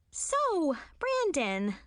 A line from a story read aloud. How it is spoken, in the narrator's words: I said cheerfully